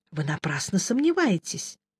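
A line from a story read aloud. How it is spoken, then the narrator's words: Gentle, kind-voiced objection. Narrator (Russian): мягко возразил хранитель добрый голос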